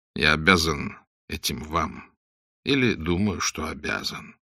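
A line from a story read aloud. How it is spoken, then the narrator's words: Quiet reply. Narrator (Russian): тихо ответил Блад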